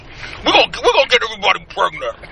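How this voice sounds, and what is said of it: Imitates another person's voice. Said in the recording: “doing a proper Tracy Morgan impression ... Tip your chin to your chest ... it makes you Tracy Morgan”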